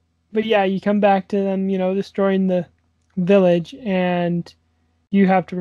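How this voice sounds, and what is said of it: Usual voice. Nothing is said of it.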